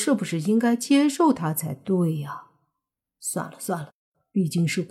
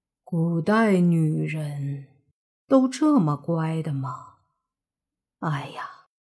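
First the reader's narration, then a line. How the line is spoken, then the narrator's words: Involuntary exclamation. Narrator (Chinese): 莫凡忍不住感叹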